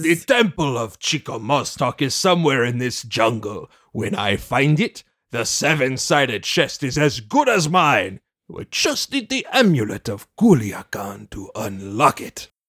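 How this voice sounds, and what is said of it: Inconsistent put-on foreign accent. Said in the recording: “This guy's accent's all over the place.”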